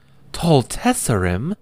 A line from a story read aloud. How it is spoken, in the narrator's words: Myara gasped in alarm